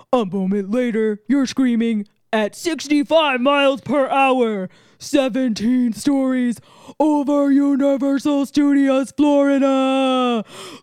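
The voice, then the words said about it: Attempted deep ride-announcer voice. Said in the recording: “What on earth was that voice?... It's my Rip Ride Rocket voice... I don't have a deep voice, so that's the best I could do... You sounded like in Beetlejuice the musical”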